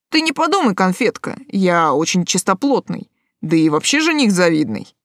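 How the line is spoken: Amused snort. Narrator (Russian): Он хмыкнул

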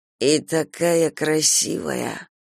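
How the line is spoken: Forced through gritted teeth. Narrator (Russian): выдавил он сквозь зубы

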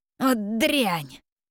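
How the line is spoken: Furious hiss. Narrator (Russian): Разъяренно прошипел

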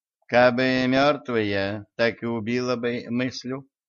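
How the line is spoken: Sighing healer woman. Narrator (Russian): вздохнула знахарка

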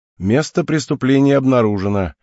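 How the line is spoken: Smirking snort. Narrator (Russian): хмыкнул Деймос

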